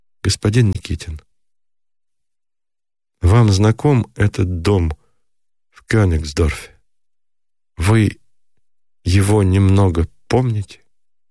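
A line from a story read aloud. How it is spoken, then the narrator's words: Timid quiet question. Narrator (Russian): робко спросила негромко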